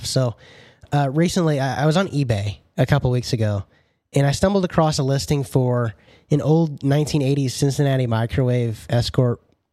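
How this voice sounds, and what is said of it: Gravelly, hoarse voice. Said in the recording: “I guess I'm getting over a cold or something. My voice is a little bit gravelly.”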